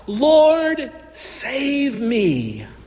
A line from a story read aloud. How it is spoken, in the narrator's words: he cried out